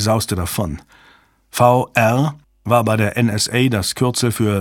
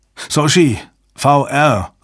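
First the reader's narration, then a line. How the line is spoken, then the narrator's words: Calling out. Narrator (German): rief Jabba seiner Assistentin zu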